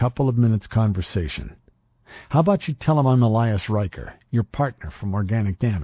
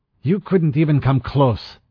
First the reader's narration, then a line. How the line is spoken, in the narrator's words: she snapped